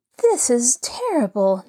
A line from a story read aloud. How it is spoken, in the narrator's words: Nancy Drew cried